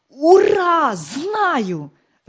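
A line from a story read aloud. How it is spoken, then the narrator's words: Joyful shout. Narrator (Russian): радостно закричал он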